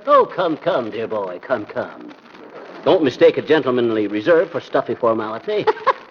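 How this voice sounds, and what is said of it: Put-on English accent. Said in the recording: “the English accent ... it's probably just his idea of elegance”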